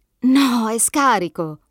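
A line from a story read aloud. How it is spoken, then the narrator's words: Exclaims. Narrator (Italian): esclama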